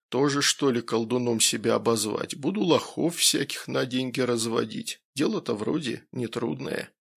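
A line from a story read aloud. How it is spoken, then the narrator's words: Quiet, dreamy, smirking. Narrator (Russian): охранник, вновь усмехнувшись, тихо и немного мечтательно произнес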